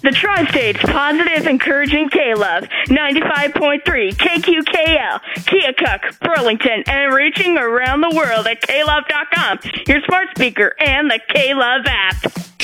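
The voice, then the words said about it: Radio DJ announcer voice. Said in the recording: “give me your best K-Love DJ impersonation”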